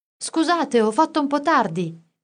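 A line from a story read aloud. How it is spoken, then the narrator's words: Shouted from afar. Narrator (Italian): gridò Orfeo da lontano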